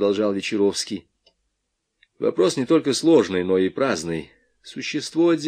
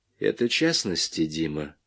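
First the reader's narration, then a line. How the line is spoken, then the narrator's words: Quiet. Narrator (Russian): тихо сказал Вечеровский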